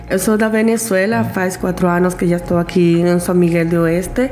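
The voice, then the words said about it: Slight foreign accent in Portuguese. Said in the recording (Portuguese): “Talvez ela fale com um pouco de sotaque.”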